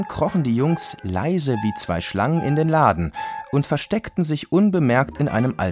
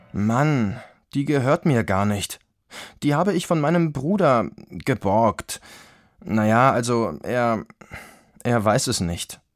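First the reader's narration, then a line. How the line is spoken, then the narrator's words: Sheepish mumble. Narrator (German): nuschelte Guntram kleinlaut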